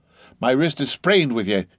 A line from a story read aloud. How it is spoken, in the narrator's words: he cried at last